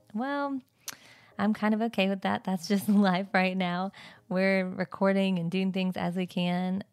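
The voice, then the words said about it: Groggy morning voice. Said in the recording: “I'm sure you can probably tell in my voice... you're going to have morning voice, you're going to sound different”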